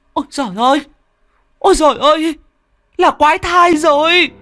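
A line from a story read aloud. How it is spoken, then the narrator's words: Horrified shriek. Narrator (Vietnamese): Mụ đỡ ... rú lên một tiếng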